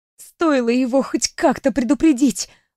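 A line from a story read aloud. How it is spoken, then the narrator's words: Hissed under breath. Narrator (Russian): прошипела я себе под нос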